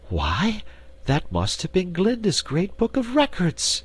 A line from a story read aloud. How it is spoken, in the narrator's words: exclaimed Dorothy